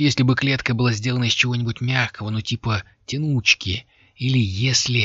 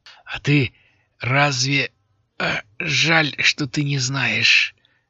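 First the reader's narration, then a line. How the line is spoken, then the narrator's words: Forced out with difficulty. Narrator (Russian): выдавил с трудом Алири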